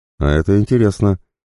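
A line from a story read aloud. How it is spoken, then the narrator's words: Amused snort. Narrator (Russian): хмыкнул Козлов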